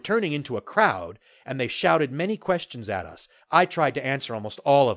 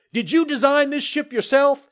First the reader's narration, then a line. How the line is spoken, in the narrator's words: one of them yelled